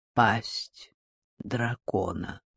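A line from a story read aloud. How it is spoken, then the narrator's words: Calm. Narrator (Russian): спокойно сказал Газан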